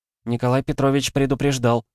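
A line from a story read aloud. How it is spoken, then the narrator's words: Timid, tired. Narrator (Russian): робко проговорила уставшая Варвара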